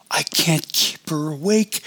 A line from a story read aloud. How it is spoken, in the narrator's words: Annabelle cried